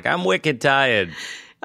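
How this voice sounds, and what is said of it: Put-on Boston accent, toddler voice. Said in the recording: “all toddlers have a Boston accent... Boston toddlers are like”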